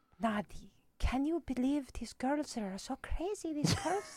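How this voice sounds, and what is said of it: Soft, gentle imitated accent. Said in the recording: “my mom's actual accent ... her accent's a little bit softer ... it's not as harsh”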